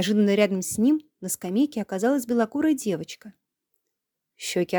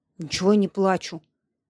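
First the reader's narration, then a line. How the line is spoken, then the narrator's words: Grumbling. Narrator (Russian): пробурчал Андрей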